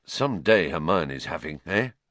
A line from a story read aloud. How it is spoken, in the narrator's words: Ron muttered to Harry, looking awed